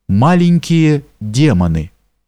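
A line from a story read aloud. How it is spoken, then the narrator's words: Calm answer. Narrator (Russian): Она ответила мне спокойно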